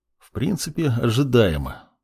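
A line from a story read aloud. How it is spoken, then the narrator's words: Said quietly. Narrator (Russian): тихо произнес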